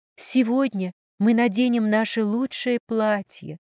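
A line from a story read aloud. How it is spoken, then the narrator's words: Heavy sigh, choked up. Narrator (Russian): тяжело вздохнув ком в горле, сказала она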